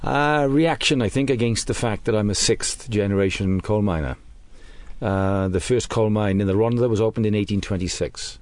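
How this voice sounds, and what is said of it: Welsh British accent. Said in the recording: “I detect a British accent there... it's British and it's Welsh”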